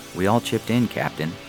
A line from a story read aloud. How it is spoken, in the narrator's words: Perry said